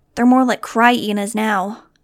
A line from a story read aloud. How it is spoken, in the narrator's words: Gezi joked wearily